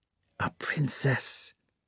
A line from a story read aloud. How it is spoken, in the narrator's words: he whispered to her